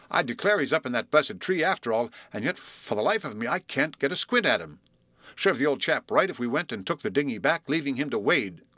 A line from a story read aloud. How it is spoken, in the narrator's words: grumbled Bluff